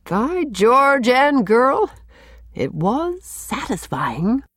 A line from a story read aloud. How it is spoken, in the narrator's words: chuckled